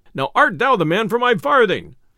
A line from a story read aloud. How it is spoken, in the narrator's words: cried the messenger